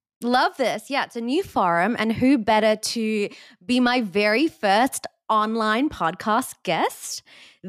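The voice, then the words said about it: Non-American accent. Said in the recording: “I also love hearing your accent. It brings me so much joy... you sound American now... I really love hearing your accent. It's very comforting.”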